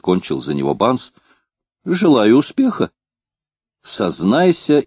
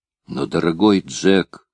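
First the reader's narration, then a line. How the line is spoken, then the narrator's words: Gloomy tone. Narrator (Russian): повторил Банс тем же угрюмым тоном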